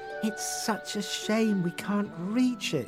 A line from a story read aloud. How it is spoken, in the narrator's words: sighed Rose